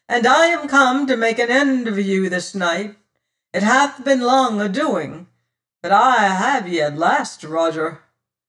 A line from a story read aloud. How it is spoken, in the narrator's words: says he, his voice ringing loud and clear